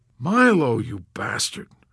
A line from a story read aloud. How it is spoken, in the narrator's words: moaned Yossarian